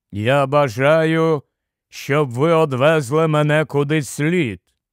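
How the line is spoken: Low sepulchral voice. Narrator (Ukrainian): промовив він низьким замогильним голосом

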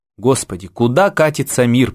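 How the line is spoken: Pathetic exclamation. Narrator (Russian): патетически воскликнул Генералов

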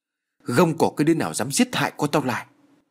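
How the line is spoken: Thunderous old man's roar. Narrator (Vietnamese): lão hội đồng quát như sấm

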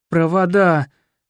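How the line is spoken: Nearly groaning. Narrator (Russian): почти простонал дядь Лёша

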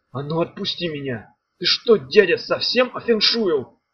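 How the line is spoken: Hoarse shout. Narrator (Russian): хрипло крикнул Меф

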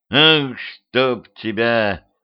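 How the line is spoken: Groan. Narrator (Russian): простонал Петрович

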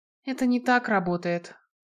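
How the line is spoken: Sighing. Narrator (Russian): вздохнула Наэль

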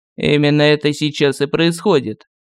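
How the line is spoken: Gloomy. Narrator (Russian): мрачно сказал кардинал

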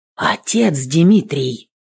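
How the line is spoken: Whisper rising ever louder. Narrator (Russian): Сначала шепотом, потом все громче повторял

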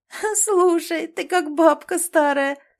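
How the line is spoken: Laughing. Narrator (Russian): смеялась она над Олей

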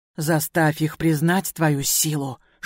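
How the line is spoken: Whisper. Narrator (Russian): шепнул он

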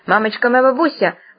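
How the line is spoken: Sudden yell. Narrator (Russian): вдруг заорал Бабьюн

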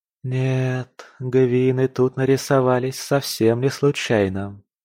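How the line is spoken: Drawn-out drawl. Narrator (Russian): протянула

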